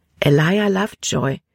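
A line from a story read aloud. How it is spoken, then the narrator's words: Plain answer. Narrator (German): antwortete Libby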